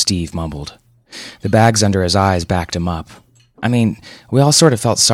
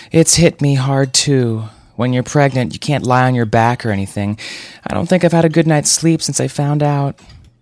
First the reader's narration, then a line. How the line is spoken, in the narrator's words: Jenna let out a theatrical sigh that would have put Scarlett O'Hara to shame and said